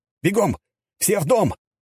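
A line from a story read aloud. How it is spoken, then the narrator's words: Alarmed shout. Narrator (Russian): закричал я, заметив целую ораву демонов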